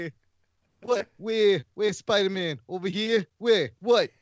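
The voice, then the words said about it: Weak John Travolta impression. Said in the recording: “I don't think that's a great Travolta impression ... that's my Travolta”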